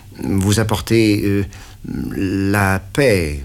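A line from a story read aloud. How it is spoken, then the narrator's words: Stammered. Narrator (French): balbutiai-je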